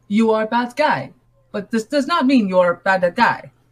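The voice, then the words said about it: Clumsy put-on foreign accent. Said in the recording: “I probably botched that accent.”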